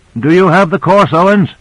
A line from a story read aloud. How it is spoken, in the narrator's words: Michaels called out